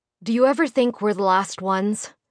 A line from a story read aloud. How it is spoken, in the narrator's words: he asked in a solemn tone